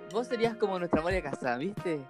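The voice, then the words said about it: Good put-on Argentine accent. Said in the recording (Spanish): “¡Qué buen acento argentino, amigo!”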